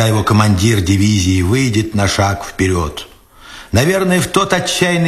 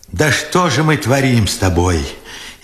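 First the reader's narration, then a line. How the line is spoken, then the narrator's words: Furious tearful question. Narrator (Russian): яростно сквозь слезы спрашивал Бережной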